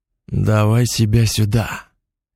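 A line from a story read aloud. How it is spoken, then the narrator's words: Growl. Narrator (Russian): рыкнул Леша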